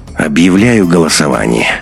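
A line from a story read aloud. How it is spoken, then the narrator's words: Tired, interrupting. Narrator (Russian): усталым голосом перебил Беленина Андрей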